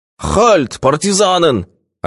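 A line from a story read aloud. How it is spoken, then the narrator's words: Wild yelling. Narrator (Russian): орал он дурным голосом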